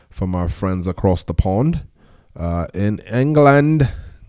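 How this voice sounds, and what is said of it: Poor put-on British accent. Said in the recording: “my terrible British accent”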